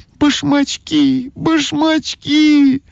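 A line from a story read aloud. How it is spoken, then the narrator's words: Shouting. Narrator (Russian): закричала Ойка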